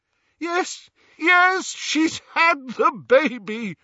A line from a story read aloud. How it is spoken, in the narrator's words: shouted Lupin